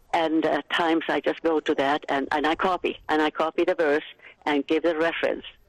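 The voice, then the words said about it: Mixed Finnish and American accent. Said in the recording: “You have the most beautiful accent. ... I was born in Finland. ... Brought up in Massachusetts. My accent is in the middle of the Atlantic Ocean.”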